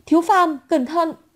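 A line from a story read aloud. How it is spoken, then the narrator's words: Frightened shout. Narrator (Vietnamese): Từ Tử Hàn sợ hãi hét lên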